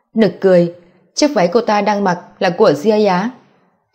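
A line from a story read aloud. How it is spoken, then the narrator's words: Choking loud laughter. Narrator (Vietnamese): Ngọc Tử San suýt sặc cười mà chết, cười lớn nói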